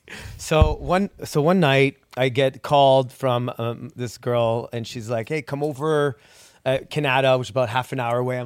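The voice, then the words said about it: Slight French accent. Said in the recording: “he's got a little bit of a French accent”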